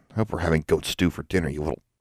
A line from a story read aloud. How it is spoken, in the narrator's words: She muttered